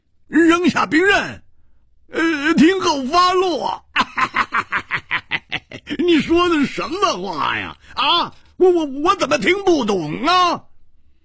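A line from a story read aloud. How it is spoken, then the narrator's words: Loud laughter. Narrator (Chinese): 胡铁花仰天大笑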